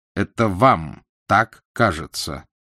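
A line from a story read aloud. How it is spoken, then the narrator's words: Stern. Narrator (Russian): Собеседник строго произнес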